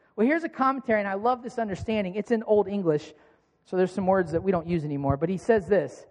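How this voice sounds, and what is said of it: Usual voice. Nothing is said of it.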